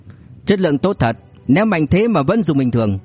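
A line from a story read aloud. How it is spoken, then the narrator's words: Loud laughing. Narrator (Vietnamese): Anh cười lớn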